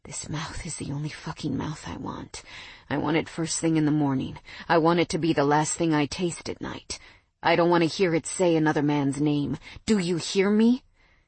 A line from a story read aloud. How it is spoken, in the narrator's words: he panted in my ear